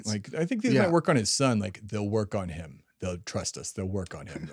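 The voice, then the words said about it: Imitates another person's voice. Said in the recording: “that was my best Dennis Prager impression.”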